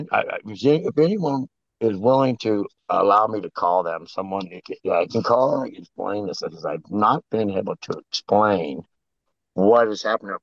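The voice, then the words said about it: Damaged, strained voice. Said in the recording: “My voice is messed up. Also, my voice is kind of screwed up.”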